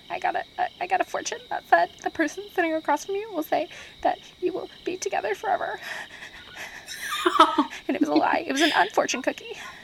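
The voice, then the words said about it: Manic, frantic delivery. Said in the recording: “that was my manic impression.”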